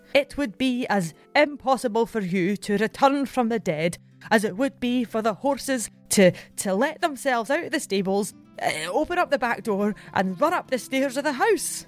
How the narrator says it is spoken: The servant is so passionate in his belief that he exclaims

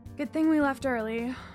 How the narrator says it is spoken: I sighed

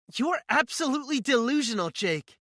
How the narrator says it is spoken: she yells at me

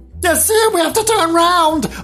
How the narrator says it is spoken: I screamed

